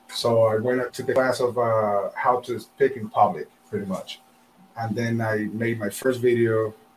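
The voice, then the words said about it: Thick South American accent. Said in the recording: “I'm from South America. I have a thick accent”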